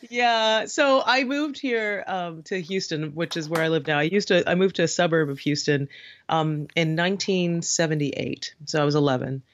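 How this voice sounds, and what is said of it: Trinidadian accent. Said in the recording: “I had a funny accent, right? I spoke like a Trini. So I landed in Houston talking exactly like this ... not sounding like ... very Southern drawls”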